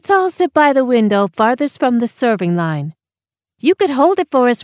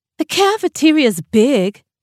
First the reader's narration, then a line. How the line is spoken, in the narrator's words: Tansy scoffed